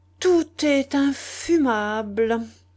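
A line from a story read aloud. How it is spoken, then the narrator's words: Moaning mimicry of another's voice. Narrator (French): gémit-il, parodiant la voix du pauvre Dixon Barnell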